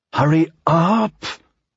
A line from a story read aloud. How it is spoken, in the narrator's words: said through clenched teeth